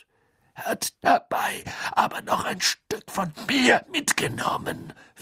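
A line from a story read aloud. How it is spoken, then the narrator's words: Whisper. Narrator (German): flüsterte Moody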